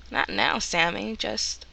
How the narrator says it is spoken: Laughing, Dean says

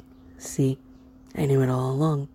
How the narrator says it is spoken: he said just a little roughly

